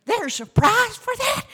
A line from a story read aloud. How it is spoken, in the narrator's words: said Alma excitedly